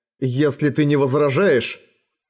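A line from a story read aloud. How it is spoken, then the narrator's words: Angry interruption. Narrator (Russian): сердито прервал ее Эрагон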